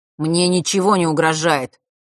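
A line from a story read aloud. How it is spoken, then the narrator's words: Slightly irritated. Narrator (Russian): немного раздраженно произнес тот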